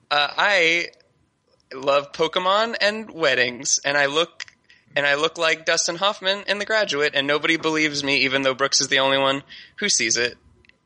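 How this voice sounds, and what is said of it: Imitates another person's voice. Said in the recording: “here's my mad impression ... That was very good.”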